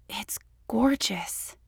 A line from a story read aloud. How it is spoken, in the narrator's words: she gasped